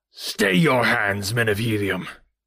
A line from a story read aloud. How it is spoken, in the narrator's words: he shouted, his voice trembling with rage